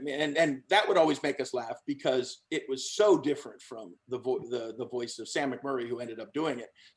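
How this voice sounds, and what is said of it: Usual voice. Nothing is said of it.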